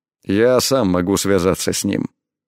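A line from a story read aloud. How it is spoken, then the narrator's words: Cold curt remark. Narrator (Russian): холодно бросил он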